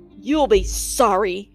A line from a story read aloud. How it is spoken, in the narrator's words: Cruella snapped